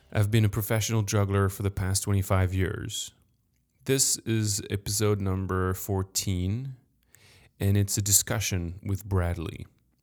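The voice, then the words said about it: French accent. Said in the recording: “I'm French, sorry for my accent.”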